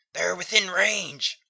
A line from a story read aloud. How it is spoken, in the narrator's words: cried Ogle